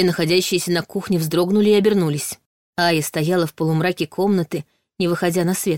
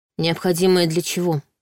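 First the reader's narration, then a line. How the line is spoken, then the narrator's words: Gloomy clarifying question. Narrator (Russian): мрачно уточнила Саша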